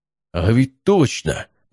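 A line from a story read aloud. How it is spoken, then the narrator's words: Exclaiming. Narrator (Russian): воскликнул Матвей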